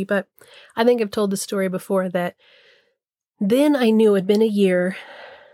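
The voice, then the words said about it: Funky voice from a cold. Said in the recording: “I have a little bit of a cold. So my voice is a little funky”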